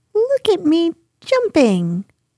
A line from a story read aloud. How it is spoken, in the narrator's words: squeaked Roo